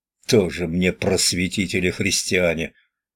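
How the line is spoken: Hiss. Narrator (Russian): Бажан зашипел на него

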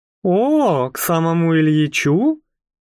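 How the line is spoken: Drawn-out, peculiar intonation. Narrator (Russian): протянула она с какой-то особой интонацией

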